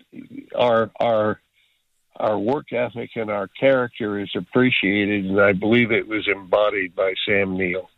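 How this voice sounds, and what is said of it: Easy-to-listen-to accented voice. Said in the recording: “you've got a very easy voice to listen to ... I love that accent.”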